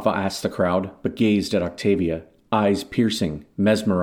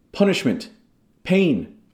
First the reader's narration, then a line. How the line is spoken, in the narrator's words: others cried out